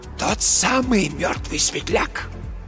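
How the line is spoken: Very quiet wheeze. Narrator (Russian): просипел Марк Йоган совсем тихо

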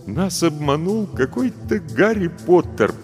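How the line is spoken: Sad. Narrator (Russian): печально сказал Львович

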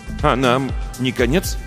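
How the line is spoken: Plain question. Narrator (Russian): спросил Львович

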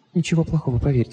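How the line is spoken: Whisper. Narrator (Russian): прошептала

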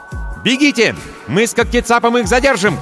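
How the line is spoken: Red-haired woman shouting. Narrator (Russian): крикнула рыжая

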